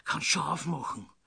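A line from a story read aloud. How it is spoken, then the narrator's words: Hasty whisper. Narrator (German): flüsterte hastig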